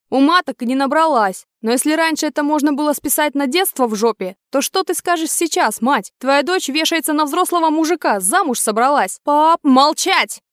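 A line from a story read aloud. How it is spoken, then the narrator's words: Barked. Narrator (Russian): Гаркнул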